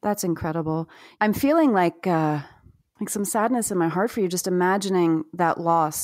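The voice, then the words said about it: Choked-up, emotional voice. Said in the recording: “I'm getting a little choked up”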